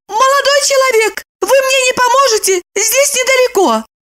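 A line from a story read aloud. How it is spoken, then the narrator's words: Joyful shout. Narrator (Russian): Липочка, радостно закричала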